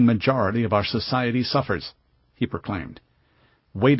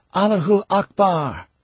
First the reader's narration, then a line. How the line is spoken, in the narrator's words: at the top of his lungs